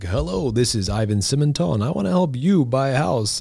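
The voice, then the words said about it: Fake, flashy on-camera presenter voice. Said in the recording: “fake and flashy ... you sound like Gene Simmons ... that voice”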